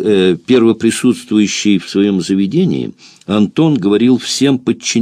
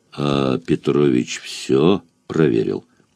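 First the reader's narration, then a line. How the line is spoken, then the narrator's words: Grim question. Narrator (Russian): Антон спросил мрачно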